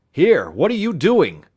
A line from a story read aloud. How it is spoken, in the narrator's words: Scott cried suddenly